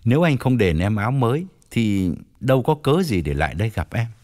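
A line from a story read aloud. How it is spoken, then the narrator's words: Smiling, blunt. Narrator (Vietnamese): Toàn mỉm cười nói thẳng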